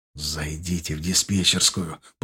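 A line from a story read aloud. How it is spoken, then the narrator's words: Whisper. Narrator (Russian): прошептал он нам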